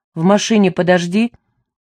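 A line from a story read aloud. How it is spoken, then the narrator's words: Rough command. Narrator (Russian): велела она грубо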